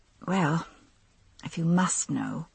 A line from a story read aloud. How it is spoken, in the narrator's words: I muttered